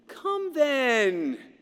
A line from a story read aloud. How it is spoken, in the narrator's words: returned the nephew gaily